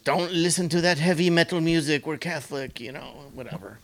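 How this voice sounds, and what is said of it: Put-on vague Italian or Russian accent. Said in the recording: “What kind of accent is that? ... We're Italian ... Romanian ... Italian, kind of, or Russian.”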